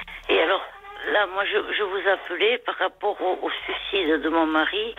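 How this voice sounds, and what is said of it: Lilting sing-song regional French accent. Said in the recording (French): “votre petit accent chantant”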